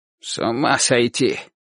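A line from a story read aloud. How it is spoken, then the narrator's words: Grandfather muttering. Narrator (Russian): бормотал дедушка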